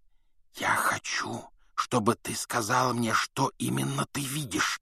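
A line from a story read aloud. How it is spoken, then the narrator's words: Whisper. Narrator (Russian): прошептал Гарри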